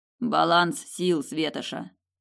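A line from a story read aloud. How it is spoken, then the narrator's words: Hoarse. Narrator (Russian): хрипло проговорил он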